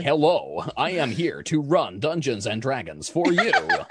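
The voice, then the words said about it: Generic American accent. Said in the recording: “generic American Dungeon Master”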